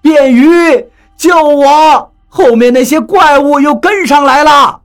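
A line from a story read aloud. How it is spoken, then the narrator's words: Hurried shout. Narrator (Chinese): 他赶紧喊道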